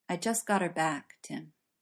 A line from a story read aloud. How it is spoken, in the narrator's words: His voice was more subdued when he said